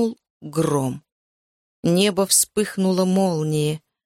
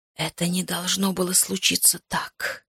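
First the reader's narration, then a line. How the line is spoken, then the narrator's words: Whisper. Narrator (Russian): прошептал он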